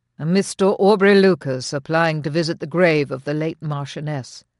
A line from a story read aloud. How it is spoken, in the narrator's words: said flatly